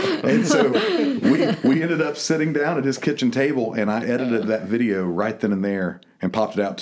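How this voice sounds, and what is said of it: Usual voice. Nothing is said of it.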